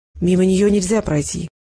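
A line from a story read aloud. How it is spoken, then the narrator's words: Hoarse. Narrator (Russian): хрипло произнес Волков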